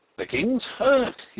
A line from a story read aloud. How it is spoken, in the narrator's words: he cried